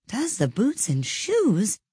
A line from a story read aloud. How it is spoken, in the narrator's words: repeated in a wondering tone